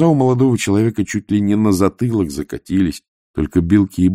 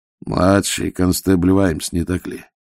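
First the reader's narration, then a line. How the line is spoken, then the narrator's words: Quiet. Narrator (Russian): тихо произнес Ваймс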